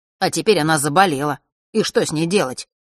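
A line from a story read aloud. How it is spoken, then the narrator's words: Sharp boy, hint of despair. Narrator (Russian): резко продолжил мальчишка, но в его голосе послышались нотки отчаяния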